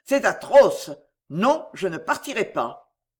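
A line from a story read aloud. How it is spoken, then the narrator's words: Sudden exclamation. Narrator (French): s'écria-t-il tout à coup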